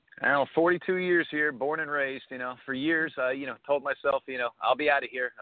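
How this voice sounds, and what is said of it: New Jersey accent. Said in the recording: “you totally have the accent ... you've totally got the Jersey boy accent.”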